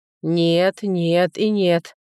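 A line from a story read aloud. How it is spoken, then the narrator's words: Calm emperor. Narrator (Russian): уже спокойно повторил император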